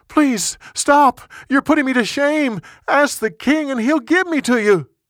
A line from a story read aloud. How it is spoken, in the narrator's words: She begged him